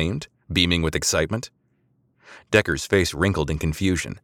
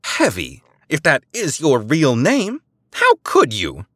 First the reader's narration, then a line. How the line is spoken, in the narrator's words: She exclaimed